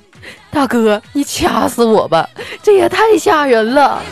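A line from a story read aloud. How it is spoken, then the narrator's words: Crying. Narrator (Chinese): 犯人哭了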